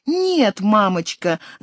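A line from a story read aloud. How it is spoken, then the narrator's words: Shouting. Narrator (Russian): закричала Мария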